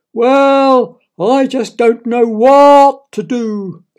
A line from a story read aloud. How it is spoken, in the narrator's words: wailed Daniel's father